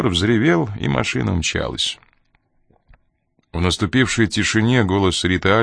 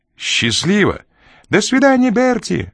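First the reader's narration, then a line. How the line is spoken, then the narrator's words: Woman's shrill squeal. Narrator (Russian): взвизгнула женщина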